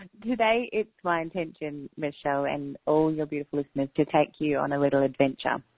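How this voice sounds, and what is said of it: Australian accent. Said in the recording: “I'm an Australian ... have a crazy Aussie accent ... your accent is lovely. Very lovely.”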